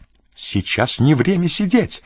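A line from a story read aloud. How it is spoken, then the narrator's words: Furious exclamation. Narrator (Russian): яростно воскликнула Жанна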